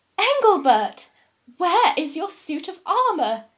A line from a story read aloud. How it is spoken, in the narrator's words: She wailed, like a woman who has lost her favourite comb